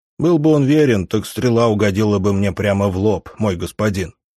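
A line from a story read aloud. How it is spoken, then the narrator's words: Grumbling. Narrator (Russian): проворчал Крегор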